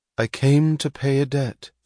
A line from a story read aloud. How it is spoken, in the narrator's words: said Cheryl, her voice solemn with the effort to permit herself no sound of emotion